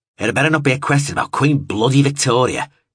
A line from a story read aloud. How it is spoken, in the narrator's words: he growled